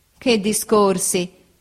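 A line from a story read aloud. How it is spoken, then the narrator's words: Laughing. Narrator (Italian): disse ridendo Steerforth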